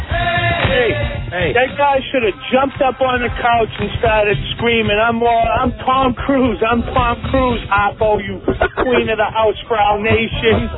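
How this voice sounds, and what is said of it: New England accent. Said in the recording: “That is a great New England accent right there. ... That is so New England.”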